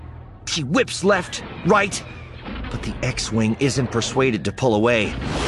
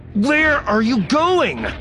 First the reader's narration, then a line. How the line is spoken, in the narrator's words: She says through gritted teeth, trying to maintain control of the shuttle